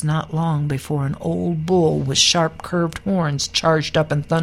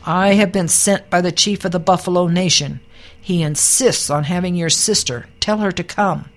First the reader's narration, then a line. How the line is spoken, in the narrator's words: a yearling bull galloped up to the teepee and bellowed